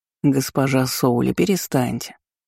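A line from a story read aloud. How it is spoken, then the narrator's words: Smiling old man's drawl. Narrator (Russian): с улыбкой протянул седовласый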